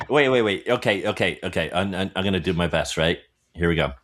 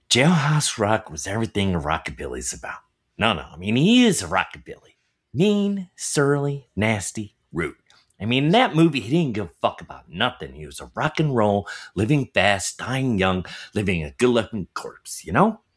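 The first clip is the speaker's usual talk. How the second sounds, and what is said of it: Christian Slater impression. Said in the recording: “Christian Slater accent ... your imitation”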